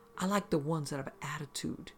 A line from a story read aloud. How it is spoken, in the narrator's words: he said in an almost sensual voice